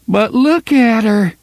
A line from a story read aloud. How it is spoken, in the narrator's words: DePape almost moaned